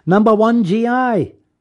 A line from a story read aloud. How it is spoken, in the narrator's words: a group of children, they yelled in unison